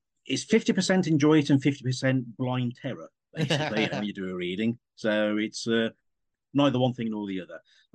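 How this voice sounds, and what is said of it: Strong Black Country English accent. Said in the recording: “I do have a strong Black Country accent”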